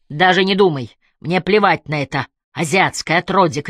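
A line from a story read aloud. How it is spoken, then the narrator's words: Heated shouting. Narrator (Russian): кричала в запале Эмили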